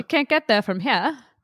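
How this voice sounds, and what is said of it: Put-on Maine accent. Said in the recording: “do our best Maine accent ... Your Mainer accent. It's just the janitor accent.”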